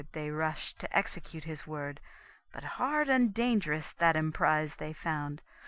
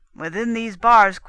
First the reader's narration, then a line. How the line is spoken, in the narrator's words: The Soldan cried to his men